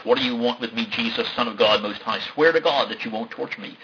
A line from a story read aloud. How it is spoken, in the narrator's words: He shouted at the top of his voice